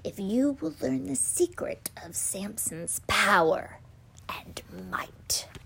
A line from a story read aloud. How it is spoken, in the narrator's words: whispered in the night